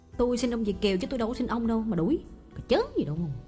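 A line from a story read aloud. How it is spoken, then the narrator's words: Snapping back angrily. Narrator (Vietnamese): có kẻ trừng mắt nạt lại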